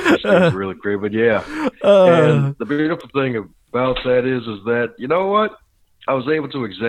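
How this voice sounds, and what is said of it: Usual voice. Nothing is said of it.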